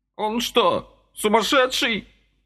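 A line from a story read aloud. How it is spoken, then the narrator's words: Shouting. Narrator (Russian): крикнул Никита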